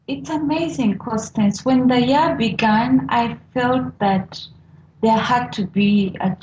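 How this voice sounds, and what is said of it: Speaks with a noticeable accent. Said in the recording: “I hope my accent will be clear for everyone ... Oh, I just love your accent”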